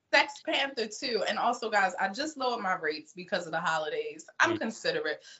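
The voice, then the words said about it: Baltimore accent. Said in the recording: “You can hear that sexy Baltimorean accent.”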